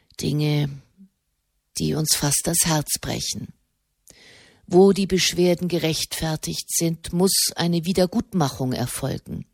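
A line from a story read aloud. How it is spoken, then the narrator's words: Quiet. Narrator (German): sprach er leise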